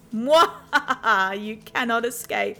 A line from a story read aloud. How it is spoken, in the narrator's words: she laughed